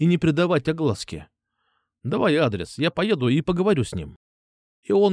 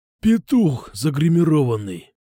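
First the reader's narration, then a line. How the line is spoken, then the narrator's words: Emotional growl. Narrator (Russian): с чувством прорычал Кукуша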